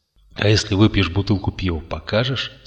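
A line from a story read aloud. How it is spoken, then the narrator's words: Plain. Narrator (Russian): спросил Жуков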